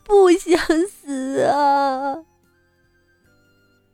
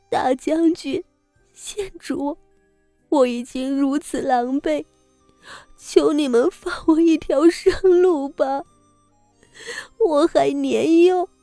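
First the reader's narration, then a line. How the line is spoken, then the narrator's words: Sobbing, pleading. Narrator (Chinese): 梅公主哭得极为伤心，磕头道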